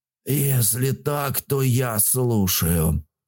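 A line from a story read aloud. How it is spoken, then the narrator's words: Languid hiss. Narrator (Russian): вяло прошипел Тайпан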